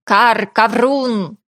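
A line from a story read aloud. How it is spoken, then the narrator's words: Raven's cry. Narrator (Russian): прокричал ворон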